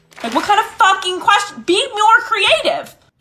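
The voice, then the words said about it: Yelling, upset. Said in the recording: “Why are you yelling?”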